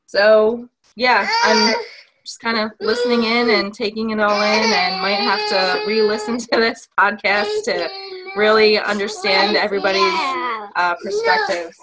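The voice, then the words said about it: Northern accent. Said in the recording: “your northern accent”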